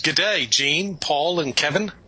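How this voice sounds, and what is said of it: Put-on Australian accent. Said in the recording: “And that's all I'm going to do for an Australian accent.”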